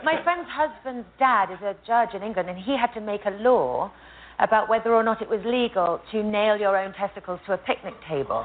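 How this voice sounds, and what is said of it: British accent. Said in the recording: “British accent ... no matter what she is saying, it sounds sexy thanks to that accent”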